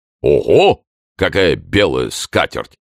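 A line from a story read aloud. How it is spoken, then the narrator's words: Booming voice. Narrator (Russian): прогремел Портос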